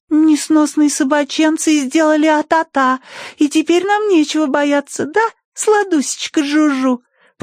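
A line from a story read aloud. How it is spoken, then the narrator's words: Cooing. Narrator (Russian): проворковала Тосси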